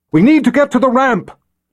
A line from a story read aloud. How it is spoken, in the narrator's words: Nikki shouted at Richard